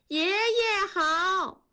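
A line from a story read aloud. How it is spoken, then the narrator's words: Children calling in unison. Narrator (Chinese): 几个孩子一起回头喊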